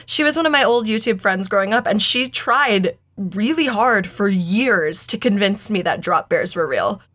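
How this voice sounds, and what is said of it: Noticeable accent, hard to understand. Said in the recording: “it's your accent, I can't understand.”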